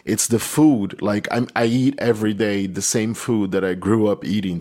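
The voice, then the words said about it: Brazilian Portuguese accent. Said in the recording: “my accent, my Brazilian Portuguese accent.”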